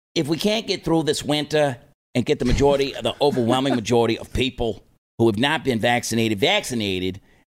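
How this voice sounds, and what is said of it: New York accent. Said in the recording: “That's a really bad New York accent.”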